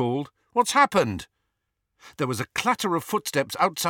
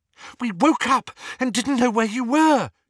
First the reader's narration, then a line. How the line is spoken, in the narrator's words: she said breathlessly